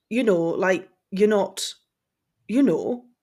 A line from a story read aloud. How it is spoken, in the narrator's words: he began hesitantly